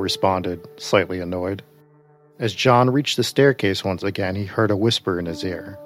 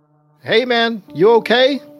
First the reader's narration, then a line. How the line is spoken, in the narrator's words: Will shouted from across the basement